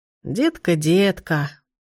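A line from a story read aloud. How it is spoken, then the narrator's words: Sad smiling. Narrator (Russian): грустно улыбнулась она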